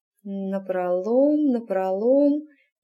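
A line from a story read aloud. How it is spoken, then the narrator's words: Muttering under breath. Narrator (Russian): забормотала она себе под нос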